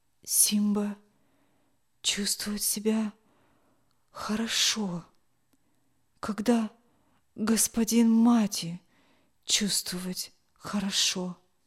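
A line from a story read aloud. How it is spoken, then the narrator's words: Barely audible whisper. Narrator (Russian): чуть слышно прошептал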